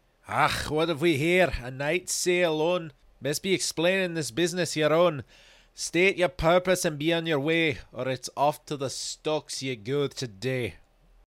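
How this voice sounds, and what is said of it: Scottish-accented guard character voice. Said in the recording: “as a guard approached, his accent Scotch.”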